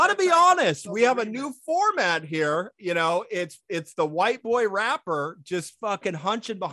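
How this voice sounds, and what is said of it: Usual voice. Nothing is said of it.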